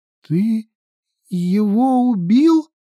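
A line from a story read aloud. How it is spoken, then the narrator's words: Trembling question. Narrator (Russian): дрожащим голосом спросила она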